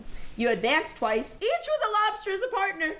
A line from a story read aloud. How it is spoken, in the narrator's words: cried the griffin